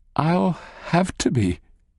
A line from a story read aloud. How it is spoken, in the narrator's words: smiles shakily